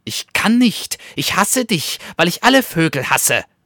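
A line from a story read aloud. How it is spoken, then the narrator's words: Hissing weasel. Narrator (German): fauchte das Wiesel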